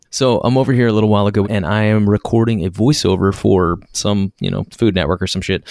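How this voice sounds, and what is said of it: Whispering quietly. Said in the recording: “I'm gonna have to be seriously quiet ... I'm whispering.”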